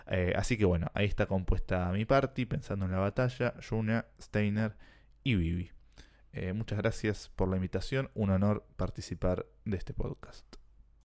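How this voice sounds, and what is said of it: Announcer-like radio voice. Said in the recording (Spanish): “qué voz que pegó ... que tenga su propio podcast con esa voz de locutor”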